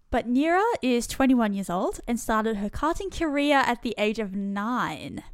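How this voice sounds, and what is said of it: Australian accent. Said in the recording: “my good old Aussie accent ... Australian accents butcher everything”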